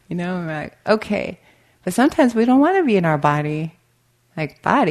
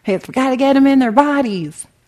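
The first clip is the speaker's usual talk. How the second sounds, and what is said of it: Put-on Tennessee accent. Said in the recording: “He has a Tennessee accent.”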